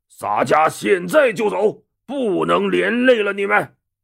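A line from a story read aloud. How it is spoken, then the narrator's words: Loud. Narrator (Chinese): 陆达大声说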